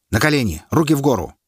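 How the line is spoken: Sharp, unpleasant, clear. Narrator (Russian): сказано резко, неприятно и понятно

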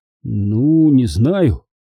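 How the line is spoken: Uncertain. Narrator (Russian): неуверенно сказал Натаниэль

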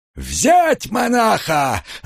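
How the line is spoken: Furious roar. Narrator (Russian): разъяренно взревел сотник

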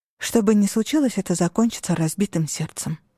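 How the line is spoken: Mutter. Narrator (Russian): пробормотала я

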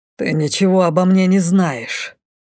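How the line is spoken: Hissing. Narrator (Russian): прошипел

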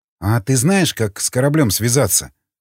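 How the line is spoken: Plain. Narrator (Russian): спросил Николай

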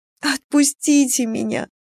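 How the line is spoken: Sobbing plea. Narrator (Russian): взмолилась я, всхлипывая

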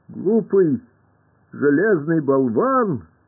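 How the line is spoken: Shout. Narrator (Russian): закричала тогда Илья

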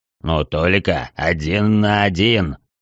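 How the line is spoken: Ominous voice. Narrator (Russian): добавил Рокки зловещим голосом

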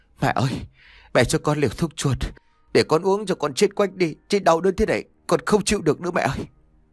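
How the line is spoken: Whimpering, near tears. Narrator (Vietnamese): mếu máo nói

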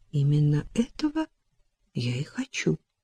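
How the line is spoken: Quiet. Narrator (Russian): тихо произнесла она

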